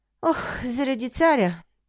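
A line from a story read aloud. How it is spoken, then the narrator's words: Sad. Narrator (Bulgarian): Тъжно отговорил момъкът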